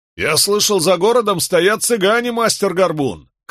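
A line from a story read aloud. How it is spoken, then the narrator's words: Shouted after them. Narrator (Russian): крикнул нам вслед один из близнецов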